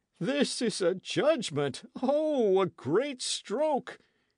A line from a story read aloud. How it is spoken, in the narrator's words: he sobbed